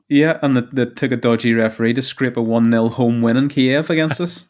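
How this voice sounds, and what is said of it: Northern Irish accent. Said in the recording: “Us is Northern Ireland, just in case you can't tell by the accent.”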